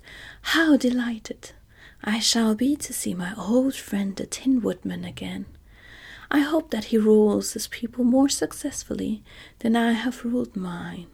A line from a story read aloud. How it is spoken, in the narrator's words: The scarecrow became greatly animated at the sight, and exclaimed